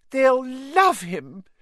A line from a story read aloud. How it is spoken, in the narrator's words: cried Aunt Petunia rapturously